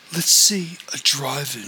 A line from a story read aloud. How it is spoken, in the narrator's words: said